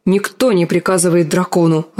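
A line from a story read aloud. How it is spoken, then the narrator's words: Snapping. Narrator (Russian): огрызнулся Визерис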